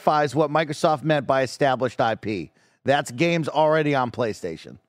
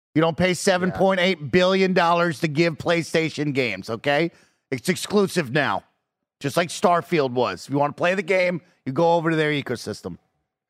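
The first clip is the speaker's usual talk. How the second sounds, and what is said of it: Stern, angry father voice. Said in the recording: “Why do you sound like an angry father?”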